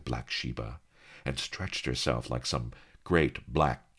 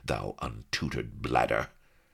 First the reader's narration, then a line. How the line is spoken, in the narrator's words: said Sheba coldly